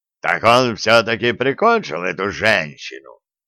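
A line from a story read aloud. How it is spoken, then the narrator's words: Growl. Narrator (Russian): прорычал Вулф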